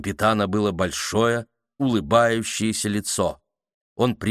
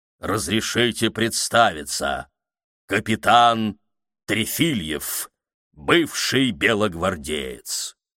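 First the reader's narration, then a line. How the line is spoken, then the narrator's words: Loud, dense voice. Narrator (Russian): фигура громким, плотным голосом произнесла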